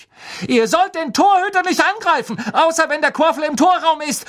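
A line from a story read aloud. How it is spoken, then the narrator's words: Shouting angrily. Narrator (German): schrie sie Bowl und Derrick an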